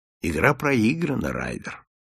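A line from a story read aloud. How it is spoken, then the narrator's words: Calm. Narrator (Russian): спокойно сказал Холмс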